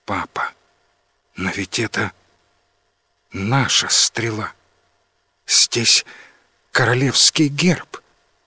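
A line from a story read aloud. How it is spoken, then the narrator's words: Quiet. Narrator (Russian): Принцесса Мия тихо сказала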